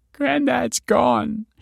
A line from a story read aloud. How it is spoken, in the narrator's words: croaked